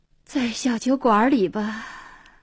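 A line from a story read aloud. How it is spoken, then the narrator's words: Sighing. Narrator (Chinese): 黄英叹口气说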